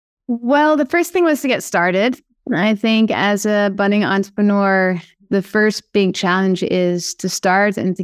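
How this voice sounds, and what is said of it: Slight Dutch accent. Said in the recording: “folks will pick up a slight accent from you... Do you hear my Dutch accent?”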